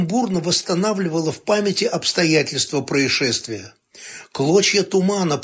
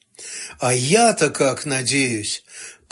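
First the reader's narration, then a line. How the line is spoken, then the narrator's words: Frightened mumble. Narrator (Russian): побледнев, пробормотала разведчица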